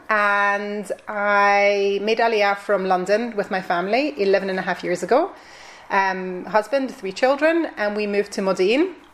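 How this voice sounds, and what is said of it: Scottish Glasgow accent. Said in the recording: “I am originally from Scotland, as you can probably hear from my accent, from Glasgow.”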